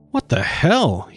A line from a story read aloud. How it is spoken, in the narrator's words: he exclaimed